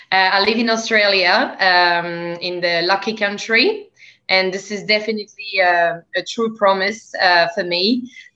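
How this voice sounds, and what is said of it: French accent. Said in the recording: “As people may hear from my accent, I'm actually from France.”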